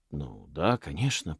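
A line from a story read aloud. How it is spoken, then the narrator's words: Obedient mutter. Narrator (Russian): послушно пробормотал Манос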